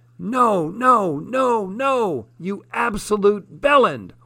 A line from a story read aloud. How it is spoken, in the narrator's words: Wallace yelled